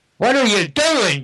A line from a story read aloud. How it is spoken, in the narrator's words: AC screamed